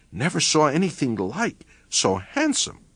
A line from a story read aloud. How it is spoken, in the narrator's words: one last anonymous whisper, disjointed